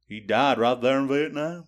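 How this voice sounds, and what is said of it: Bad put-on Southern accent. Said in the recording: “It's the worst Southern accent I've ever heard.”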